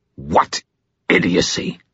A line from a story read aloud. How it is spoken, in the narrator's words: He snarled toward Madge